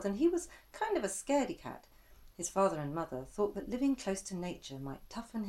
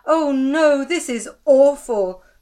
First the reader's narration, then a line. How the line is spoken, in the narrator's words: Old Jen shouted